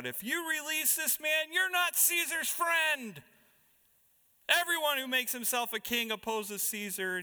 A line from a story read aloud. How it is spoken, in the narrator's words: the Jews cried out